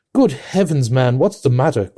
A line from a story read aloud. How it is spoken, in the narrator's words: cried the medical man